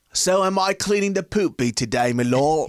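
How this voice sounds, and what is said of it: Bad put-on British accent. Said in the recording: “your British accent was rubbish”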